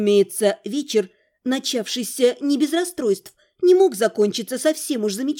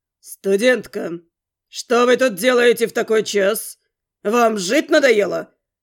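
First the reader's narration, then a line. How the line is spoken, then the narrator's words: Booming from overhead. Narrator (Russian): Прогремело над головой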